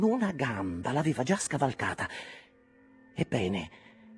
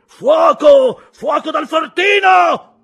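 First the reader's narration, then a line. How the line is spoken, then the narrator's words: Shouted. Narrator (Italian): gridò il dottore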